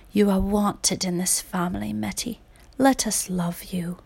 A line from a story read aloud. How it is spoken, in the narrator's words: Mama Addie whispered